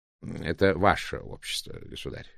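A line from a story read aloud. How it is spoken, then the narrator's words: Purring. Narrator (Russian): промурлыкал мистер Блэк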